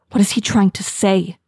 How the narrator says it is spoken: She whispers

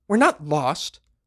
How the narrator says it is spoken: the Ga-Metruan snapped

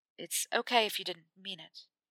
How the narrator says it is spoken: Harry said quietly

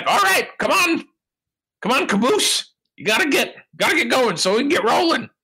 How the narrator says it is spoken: He yells back

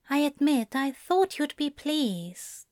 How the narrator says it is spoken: Zira answered softly

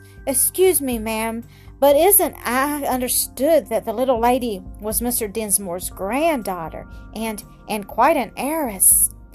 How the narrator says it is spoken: exclaimed the latter with sharpness

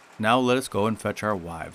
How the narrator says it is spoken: said Lion

